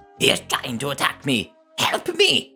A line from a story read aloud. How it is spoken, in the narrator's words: Karen exclaimed